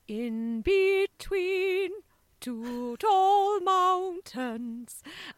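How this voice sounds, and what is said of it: Formal 1950s-style singing imitation. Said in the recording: “she sings it in a really strange way, like from the 50s. So it's really formal.”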